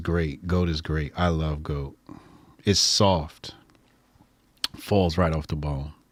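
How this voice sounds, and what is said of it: Jamaican accent. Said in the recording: “You see that accent came back? ... You start talking about Jamaican shit”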